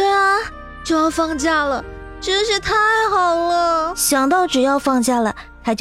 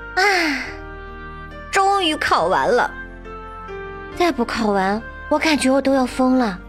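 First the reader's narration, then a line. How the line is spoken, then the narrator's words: Wailing, howling. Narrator (Chinese): 小雪就鬼哭狼嚎的说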